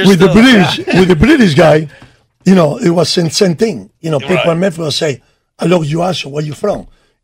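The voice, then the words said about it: Foreign accent, broken English. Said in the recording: “I love your accent ... they would love my accent with my broken English”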